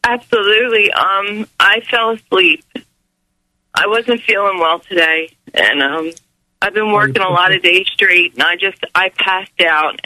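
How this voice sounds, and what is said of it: Rough, croaky, unwell-sounding voice. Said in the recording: “You sound awful, ... you got something caught in your throat”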